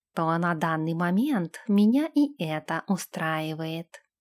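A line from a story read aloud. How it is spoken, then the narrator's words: Whisper in ear. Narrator (Russian): прошептал Нэш ей на ухо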